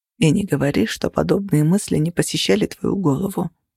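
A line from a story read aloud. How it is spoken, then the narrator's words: Quiet. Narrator (Russian): тихо сказал он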